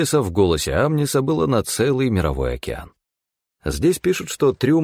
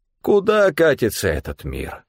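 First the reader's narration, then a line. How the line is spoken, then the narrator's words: Tragic sigh. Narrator (Russian): трагично вздохнул Стефан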